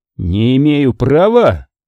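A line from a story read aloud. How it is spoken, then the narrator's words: Exclaimed. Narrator (Russian): воскликнул ударный корабль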